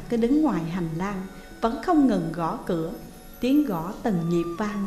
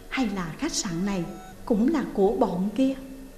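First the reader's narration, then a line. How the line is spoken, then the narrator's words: Soft spoken. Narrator (Vietnamese): thầm nghĩ rồi khẽ nói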